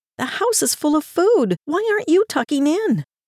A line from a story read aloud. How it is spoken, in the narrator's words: The dog whined